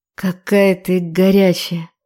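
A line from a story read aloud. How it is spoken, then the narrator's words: Hoarse whisper close by. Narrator (Russian): хриплый шепот у самого уха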